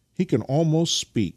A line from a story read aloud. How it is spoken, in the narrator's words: cried Nikita